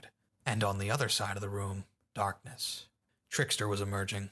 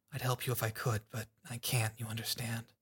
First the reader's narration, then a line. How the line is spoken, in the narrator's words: Sundancer whispered to her